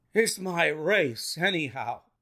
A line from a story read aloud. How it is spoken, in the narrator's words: gasped the colonel